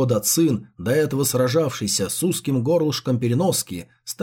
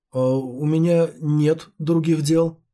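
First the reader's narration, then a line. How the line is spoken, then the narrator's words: Stammering reply. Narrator (Russian): запинаясь, ответил стажер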